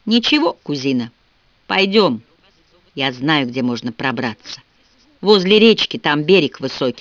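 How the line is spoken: Plain. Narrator (Russian): сказала Милли

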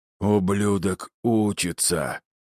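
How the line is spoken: Hoarse, sore throat. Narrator (Russian): Прохрипел Астерий, потирая горло

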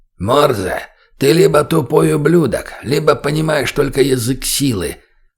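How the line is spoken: Sudden creaky voice. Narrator (Russian): Вдруг проскрипел до боли знакомый голос

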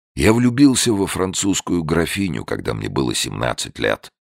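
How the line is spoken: Hoarse voice. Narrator (Russian): начал Беллами хриплым голосом

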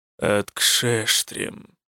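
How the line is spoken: Quiet. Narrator (Russian): тихо сказал Коссол

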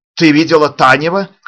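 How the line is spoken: Shout, old man. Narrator (Russian): крикнул старик

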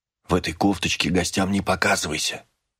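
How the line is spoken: Whisper. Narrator (Russian): прошептала милая принцесса

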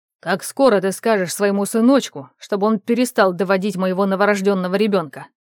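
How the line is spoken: Barked. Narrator (Russian): рявкнул Евдокимов

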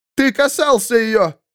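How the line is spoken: Shouted. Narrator (Russian): крикнул Фридрих

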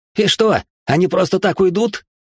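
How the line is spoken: Shrieking son. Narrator (Russian): завизжал сынок

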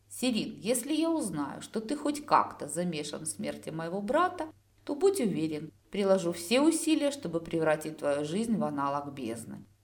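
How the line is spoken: Soft. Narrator (Russian): мягко произнес я

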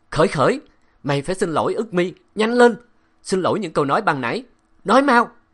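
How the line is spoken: Old man shouting. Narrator (Vietnamese): miệng ông hét

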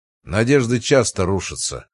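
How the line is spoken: Dry reply. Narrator (Russian): сухо ответил Барбашин

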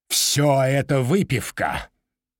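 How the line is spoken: Grumbling. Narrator (Russian): проворчал сэр Джулиус

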